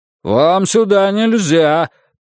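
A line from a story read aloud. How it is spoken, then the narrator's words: Man shouting from behind. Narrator (Russian): крикнул какой-то мужчина у него за спиной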